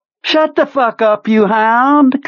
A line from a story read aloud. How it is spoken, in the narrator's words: Kurtz said cheerfully